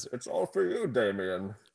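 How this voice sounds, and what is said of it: Bane impression. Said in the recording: “do a Bane impression”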